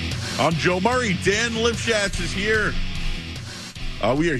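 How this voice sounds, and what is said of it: Usual voice. Nothing is said of it.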